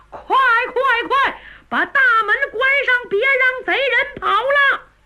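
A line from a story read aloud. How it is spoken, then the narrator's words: Loud urgent shout. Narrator (Chinese): 大管家秦福在门口高喊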